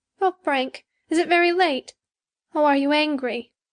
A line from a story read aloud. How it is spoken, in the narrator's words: she exclaimed timidly